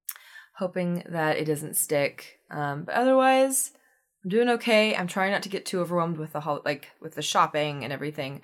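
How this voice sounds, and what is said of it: Slightly deeper, sore-throat voice. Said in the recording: “swollen throat ... my voice is a little bit deeper”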